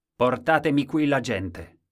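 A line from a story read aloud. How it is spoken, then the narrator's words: Shouting. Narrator (Italian): Ed egli gridò ai suoi servitori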